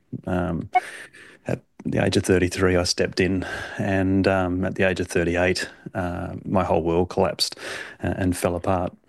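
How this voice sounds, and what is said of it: Australian accent. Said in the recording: “as most can tell from my accent, I'm from Australia”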